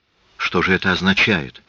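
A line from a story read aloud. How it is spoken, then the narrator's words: Whispered. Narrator (Russian): прошептала Лис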